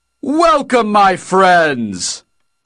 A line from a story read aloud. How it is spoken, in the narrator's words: Og bellowed